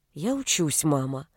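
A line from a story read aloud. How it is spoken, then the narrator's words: Quiet answer. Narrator (Russian): тихо ответила Нета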